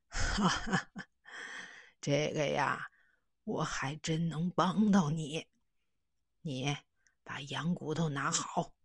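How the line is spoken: Laughing old man. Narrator (Chinese): 瘦老头哈哈一笑，说

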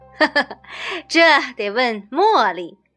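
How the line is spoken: Laughing. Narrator (Chinese): 阿拉丁笑了

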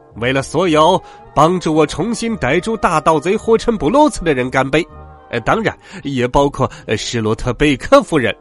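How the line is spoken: Shouting. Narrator (Chinese): 迪蒙瑟尔警长喊道

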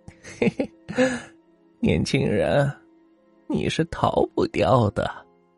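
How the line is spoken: Eerie old woman. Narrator (Chinese): 老婆婆诡异的笑了笑

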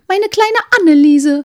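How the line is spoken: Calling out. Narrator (German): rief das andere

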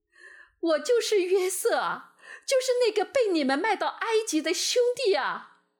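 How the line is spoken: Loud sobbing. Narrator (Chinese): 约瑟忍不住放声大哭

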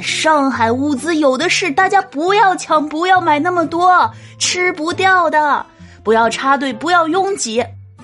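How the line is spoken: Police shouting desperately. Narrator (Chinese): 人民警察都来了，拼命的喊

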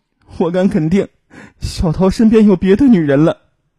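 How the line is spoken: Crying on the phone. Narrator (Chinese): 第二天不见男友回音的胡文，哭着打电话给母亲说

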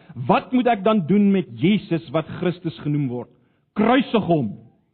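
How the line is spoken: Crowd shouting. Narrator (Afrikaans): skreeu hulle almal

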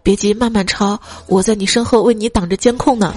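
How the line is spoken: Smiling whisper. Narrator (Chinese): 他笑了笑，在我耳边小声说

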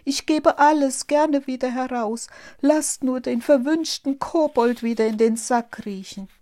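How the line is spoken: Meek, sheepish cry. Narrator (German): rief der Wirt ganz kleinlaut

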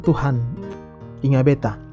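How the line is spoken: Murmuring at night. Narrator (Indonesian): Kadang di waktu malam saat saya berbaring di tempat tidur, saya menatap ke langit sambil bergumam

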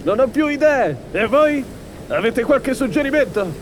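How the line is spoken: Crew voice yelling. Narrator (Italian): Dalla ciurma una voce urlò

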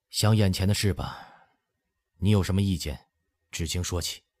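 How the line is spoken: Deep sigh. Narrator (Chinese): 他又深深叹了一声

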